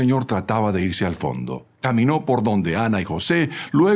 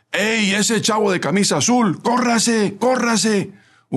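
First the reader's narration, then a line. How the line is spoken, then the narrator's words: Shout. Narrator (Spanish): gritó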